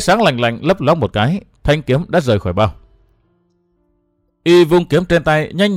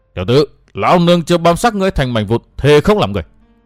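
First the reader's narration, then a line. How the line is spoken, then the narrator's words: Roaring. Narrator (Vietnamese): Thải y la sát gầm thét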